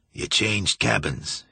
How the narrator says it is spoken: he said hoarsely

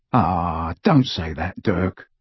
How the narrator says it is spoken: murmured Ted

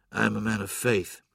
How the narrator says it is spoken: he said, softly

